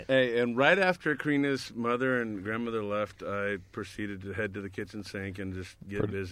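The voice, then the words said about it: Voice sounds like a cold. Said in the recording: “I have a cold.”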